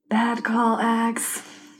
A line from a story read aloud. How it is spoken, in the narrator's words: he murmured